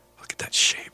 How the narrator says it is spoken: whispered

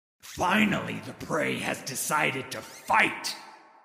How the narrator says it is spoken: Udyr roared

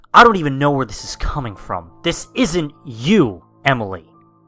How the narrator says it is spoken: inhaling and exhaling angrily, stated

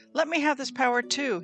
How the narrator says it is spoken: he exclaimed

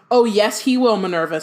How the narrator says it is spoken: said Dumbledore sharply

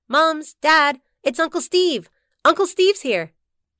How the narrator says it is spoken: As she galloped down the stairs and through the living room, she called out

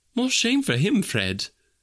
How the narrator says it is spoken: says Scrooge's niece indignantly

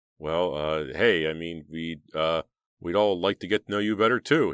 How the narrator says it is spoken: he stammered

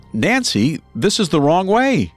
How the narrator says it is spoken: Strangis, worried about what might happen next, yelled out

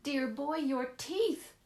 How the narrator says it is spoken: Hay Hardy cried

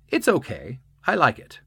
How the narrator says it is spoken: he adds brightly

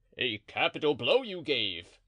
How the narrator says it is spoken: cried Porthos

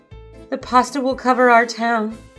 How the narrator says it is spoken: they cried

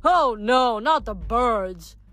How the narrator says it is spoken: Leo grumbled

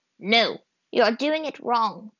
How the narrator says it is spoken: the old woman said a little harshly

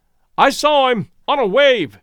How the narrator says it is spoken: yelled R

